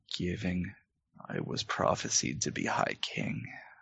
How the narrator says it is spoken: Magnus, he ... just says quietly

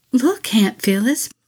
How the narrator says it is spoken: pleaded Missy again

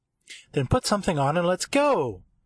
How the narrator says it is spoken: she said in a happy, rambunctious voice

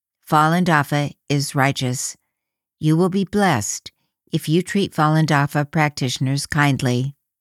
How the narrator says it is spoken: told calmly

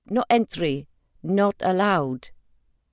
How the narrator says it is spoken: in a thick accent he said

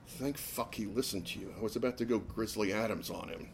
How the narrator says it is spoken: Julie mumbled

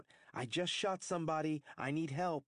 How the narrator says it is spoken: heard him shout

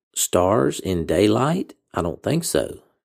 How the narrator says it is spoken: he murmured

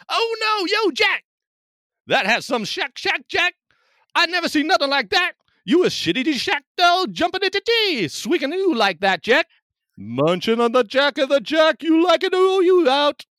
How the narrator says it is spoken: a group of onlookers exclaim in delight

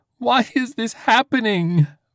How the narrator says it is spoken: Vanna shrieked

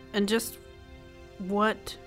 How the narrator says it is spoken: Michael said, his voice unusually grim

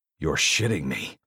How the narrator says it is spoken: I growl into the phone

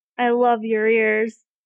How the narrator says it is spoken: Merlin giggled

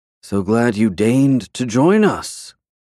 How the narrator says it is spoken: much lower, he icily added

